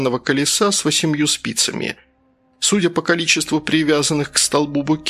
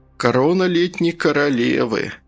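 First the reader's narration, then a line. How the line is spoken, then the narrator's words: Sigh. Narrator (Russian): следователь вздохнул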